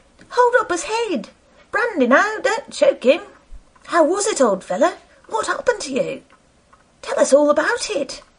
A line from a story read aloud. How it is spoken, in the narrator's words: a little, feeble, squeaking voice